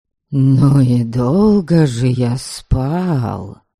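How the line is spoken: Hoarse voice. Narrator (Russian): хрипло выговорил

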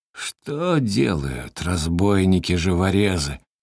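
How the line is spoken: Hoarse drowsy old man. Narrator (Russian): хрипло заметил задремавший был старик

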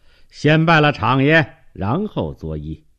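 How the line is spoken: Welcoming greeting. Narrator (Chinese): 李石迎道

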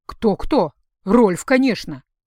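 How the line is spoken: Indignant. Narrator (Russian): возмущенно сказала

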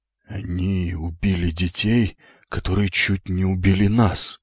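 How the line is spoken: Muttered. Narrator (Russian): пробормотал вслед кто-то из семьи

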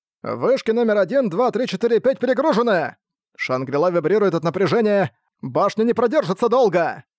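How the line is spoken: Engineers shouting. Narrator (Russian): кричали инженеры магического института

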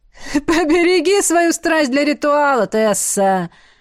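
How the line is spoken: Laughing advice. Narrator (Russian): смеясь, посоветовал Артур

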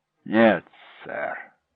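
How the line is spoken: Hoarse whisper. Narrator (Russian): сказал Хеллоран, понижая голос до хриплого шепота

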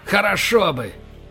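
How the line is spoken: Defiant bark. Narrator (Russian): рявкнул Боровский с вызовом

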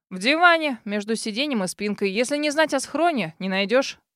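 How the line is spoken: Wry snort. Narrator (Russian): хмыкнул друг

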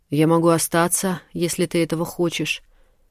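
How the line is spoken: Muffled voice. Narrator (Russian): глухим голосом ответила она

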